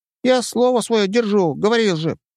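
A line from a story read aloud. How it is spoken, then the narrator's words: Squeaky reply. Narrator (Russian): пропищал он в ответ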